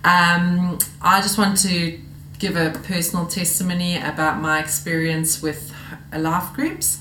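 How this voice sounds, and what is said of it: South African accent. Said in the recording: “As you can hear from my accent, I am not local. I'm from South Africa”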